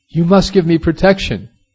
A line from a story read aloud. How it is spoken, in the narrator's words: The killer, struck with terror, cried